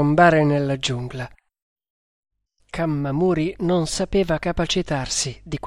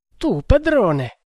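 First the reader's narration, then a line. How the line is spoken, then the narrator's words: Astonished exclamation. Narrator (Italian): esclamò con stupore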